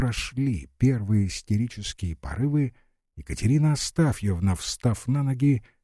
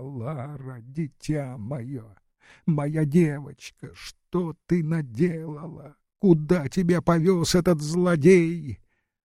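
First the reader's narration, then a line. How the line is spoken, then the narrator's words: Sobbing wail. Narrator (Russian): Катерина Астафьевна зарыдала, вопя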